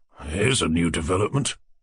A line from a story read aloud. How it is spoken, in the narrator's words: muttered the general